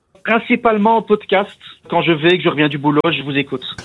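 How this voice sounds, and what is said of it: Belgian French accent from Namur. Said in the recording (French): “je sens l'accent de Namur. ... C'est ça, Namur en Belgique.”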